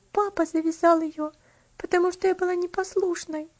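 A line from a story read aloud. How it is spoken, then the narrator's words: Girl answering through a sob. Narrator (Russian): ответила девочка, не сумев сдержать всхлипывание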